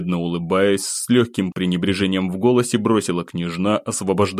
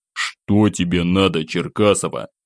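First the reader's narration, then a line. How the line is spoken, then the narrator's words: Displeased quiet grumble. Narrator (Russian): Недовольно проворчал я, стараясь говорить так, чтобы меня слышала только собеседница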